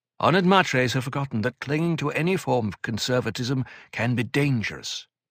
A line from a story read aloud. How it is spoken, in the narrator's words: Odraid said